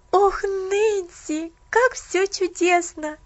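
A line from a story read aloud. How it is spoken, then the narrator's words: Joyful exclamation. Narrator (Russian): воскликнула Поллианна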